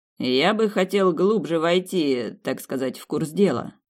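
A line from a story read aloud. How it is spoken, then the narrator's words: Wry snort. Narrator (Russian): хмыкнул он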